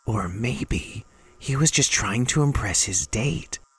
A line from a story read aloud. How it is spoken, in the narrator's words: Rennie whispered